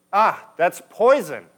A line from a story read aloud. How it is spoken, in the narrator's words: exclaimed